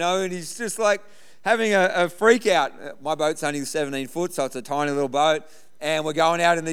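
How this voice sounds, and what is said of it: Usual voice. Nothing is said of it.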